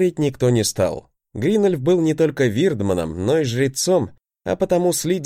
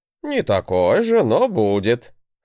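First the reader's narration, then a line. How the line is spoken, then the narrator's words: Chuckling. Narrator (Russian): хохотнул мой учитель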